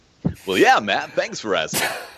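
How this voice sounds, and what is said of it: Put-on radio announcer voice. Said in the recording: “put on my radio voice ... My impression.”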